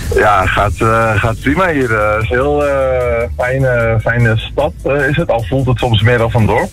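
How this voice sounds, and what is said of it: Dutch-influenced border accent. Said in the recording (Dutch): “Ik hoor het in jouw accent. ... Het is pal aan de grens met Nederland.”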